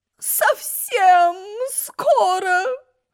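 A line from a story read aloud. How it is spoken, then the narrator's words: Moan. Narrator (Russian): Стонала королева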